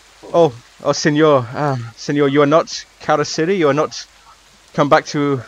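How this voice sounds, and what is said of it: Put-on Spanish accent. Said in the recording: “another Spanish voice ... I apologize to any Spanish speakers for what's about to happen”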